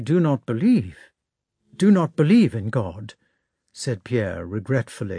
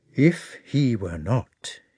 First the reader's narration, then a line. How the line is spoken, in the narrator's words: he said quietly